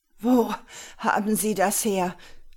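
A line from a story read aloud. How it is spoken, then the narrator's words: Groaning. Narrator (German): stöhnte er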